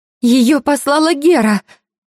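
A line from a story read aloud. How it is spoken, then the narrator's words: Frightened. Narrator (Russian): Испуганно говорит Терпсихора, и это не столько вопрос, сколько утверждение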